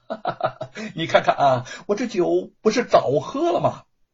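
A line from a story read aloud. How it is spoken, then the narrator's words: Hearty laughing. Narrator (Chinese): 吴承恩 大笑着说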